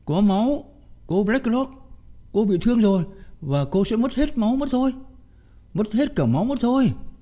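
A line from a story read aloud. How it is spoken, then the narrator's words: Shrieking again. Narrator (Vietnamese): Mitzi lại rú lên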